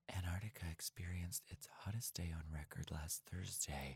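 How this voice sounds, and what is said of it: Mock public radio newsreader voice. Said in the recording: “I'm going to read it in my NPR voice ... Very Ari Shapiro.”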